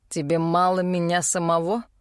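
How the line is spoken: Snorting king. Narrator (Russian): хмыкнул король

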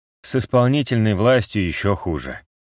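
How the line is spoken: Sighing. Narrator (Russian): вздохнул Тибериус

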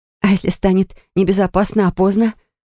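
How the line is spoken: Breathless, halting exhale. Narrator (Russian): Прерывисто выдохнула

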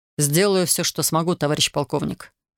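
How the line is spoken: Plain. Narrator (Russian): сказал Александр

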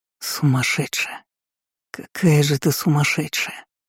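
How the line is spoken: Broken whisper against lips. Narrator (Russian): прошептал прерывисто в губы

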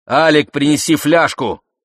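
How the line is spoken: Shout. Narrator (Russian): военный крикнул

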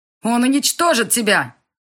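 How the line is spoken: Outcast shouting. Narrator (Russian): крикнул изгой

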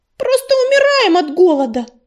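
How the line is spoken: Yelling. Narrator (Russian): завопила Белочка

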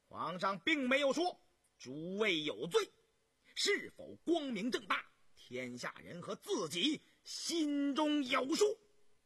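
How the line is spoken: Shrill, piercing, resounding. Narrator (Chinese): 于宏图尖锐而刺耳的声音响彻了大殿

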